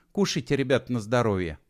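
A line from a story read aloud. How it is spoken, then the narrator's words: Gentle, affectionate. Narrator (Russian): ласково заговорила Алена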